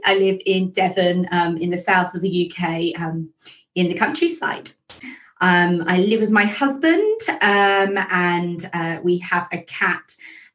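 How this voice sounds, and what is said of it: Posh English accent. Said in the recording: “what sounds to me like a really posh English accent”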